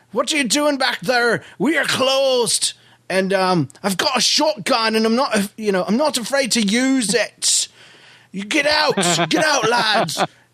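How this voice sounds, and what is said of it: Put-on Irish accent. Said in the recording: “with my brand new Irish accent... I used a different voice”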